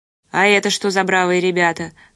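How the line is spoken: Smirking grunt. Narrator (Russian): хмыкнул первый

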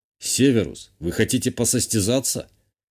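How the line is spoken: Question with a snort. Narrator (Russian): Я задал ему вопрос и, хмыкнув

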